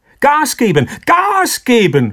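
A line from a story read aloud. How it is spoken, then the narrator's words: Shouted. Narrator (German): schrie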